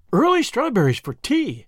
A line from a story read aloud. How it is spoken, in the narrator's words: exclaimed Miss Lavendar